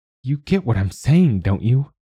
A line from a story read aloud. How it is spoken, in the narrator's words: She asks, her voice rising